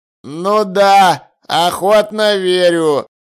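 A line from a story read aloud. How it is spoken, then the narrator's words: Gloomy mutter. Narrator (Russian): мрачно пробурчал Чудакулли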